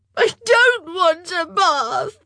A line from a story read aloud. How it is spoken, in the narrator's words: she wailed